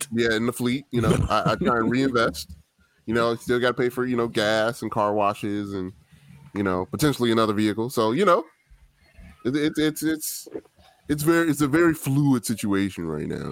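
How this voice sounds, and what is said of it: Decent Ryan Pace impression. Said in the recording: “Ryan Pace impersonation ... He does a good pace. He really does actually do a decent pace.”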